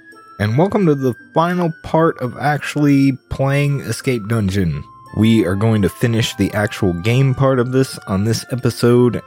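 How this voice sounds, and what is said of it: Tired, exhausted-sounding voice. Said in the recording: “I'm very tired this week. I don't know if you can hear it in my voice. ... holy shit, I'm exhausted this week”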